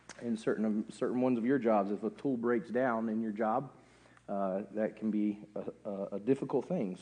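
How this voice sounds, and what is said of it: Hoarse, strained, struggling voice. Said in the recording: “You will probably guess by my voice that I am recovering from laryngitis ... most of my voice has come back. You can hear that it's kind of struggling still ... if at any point I squeak”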